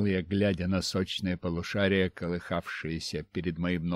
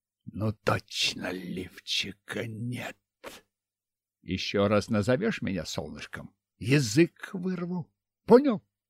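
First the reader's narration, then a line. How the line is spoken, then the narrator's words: Hissing reply. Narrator (Russian): Ксения, зашипев, ответила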